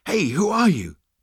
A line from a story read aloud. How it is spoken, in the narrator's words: panted Seyfod